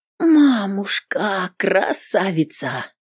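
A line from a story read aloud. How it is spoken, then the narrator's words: Admiring drawl. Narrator (Russian): Восхищенно протянул Игнашка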